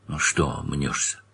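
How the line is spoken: Conspiratorial whisper. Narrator (Russian): Паша понизил голос до конспиративного шепота

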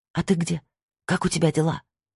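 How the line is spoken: Whisper. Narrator (Russian): прошептала

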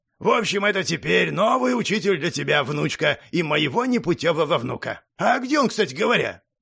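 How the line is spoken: Deep bass, old man. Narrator (Russian): пробасил дед

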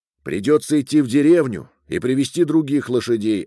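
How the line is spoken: Plain. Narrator (Russian): ответил Джован

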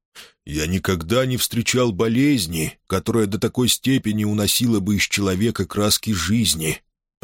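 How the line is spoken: Soft deep male voice. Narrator (Russian): проговорил он мягким, глубоким голосом

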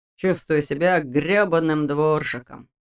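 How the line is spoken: Grumbling. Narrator (Russian): проворчал ее брат

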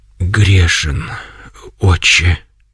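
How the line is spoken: Barely audible, sobbing. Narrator (Russian): наконец еле слышно произнес он и зарыдал

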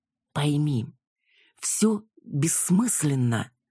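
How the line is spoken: Forced-out words. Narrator (Russian): наконец выдавил

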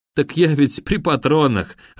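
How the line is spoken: Laughing. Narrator (Russian): рассмеялся наемник

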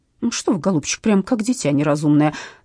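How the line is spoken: Stern, bearded man. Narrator (Russian): строго проговорил бородач

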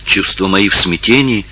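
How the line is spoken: Whispering. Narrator (Russian): прошептала Долорес

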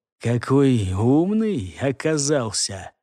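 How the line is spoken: Whispering. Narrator (Russian): прошептал кто-то слева от него

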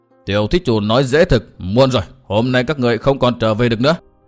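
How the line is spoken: Sudden stern shout. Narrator (Vietnamese): Xích Phát Tôn giả đột nhiên sầm nét mặt lại quát hỏi

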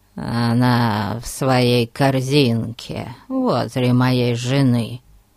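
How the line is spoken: Hoarse, then coughing. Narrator (Russian): хрипло добавил Ларкин и закашлялся

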